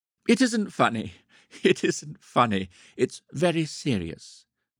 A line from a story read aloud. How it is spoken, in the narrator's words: she would say to herself, biting her lower lip in a determined effort not to laugh